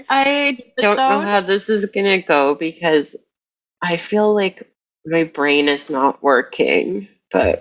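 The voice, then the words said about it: Raspy, nasal, sick-sounding voice. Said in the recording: “you've got the COVID rasp ... It sounds a bit nasally ... You definitely sound sick”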